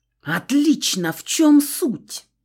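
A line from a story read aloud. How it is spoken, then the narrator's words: Near growl. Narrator (Russian): Почти прорычала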